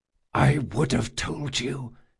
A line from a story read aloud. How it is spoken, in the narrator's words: he whispered